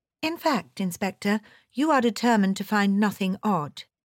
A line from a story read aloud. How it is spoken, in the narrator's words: I said sweetly